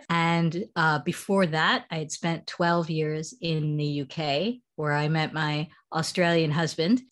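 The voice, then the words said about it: American accent. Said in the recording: “as you can hear from my accent, I'm originally American”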